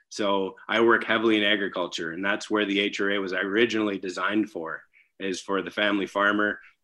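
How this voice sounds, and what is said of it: North Dakota regional accent. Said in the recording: “you probably can hear it with my accent, I'm not from the South anywhere. I live in the middle of nowhere, North Dakota.”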